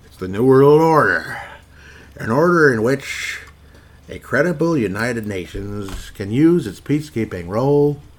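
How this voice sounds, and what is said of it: Impression of George H.W. Bush. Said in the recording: “that's HW again, me imitating HW.”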